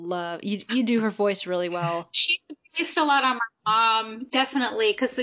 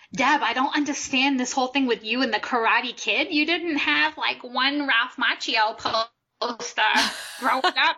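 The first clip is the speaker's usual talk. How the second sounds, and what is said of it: Imitated Rhode Island accent. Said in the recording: “my mom is, she's got it's Rhode Island accent”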